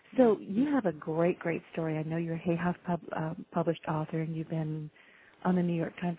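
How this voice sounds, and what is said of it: Raspy, hoarse voice. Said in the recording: “I'm raspy. I apologize. You'll probably hear me choking at points.”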